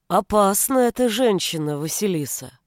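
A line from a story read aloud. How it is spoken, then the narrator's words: Thoughtful. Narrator (Russian): Наконец задумчиво изрек он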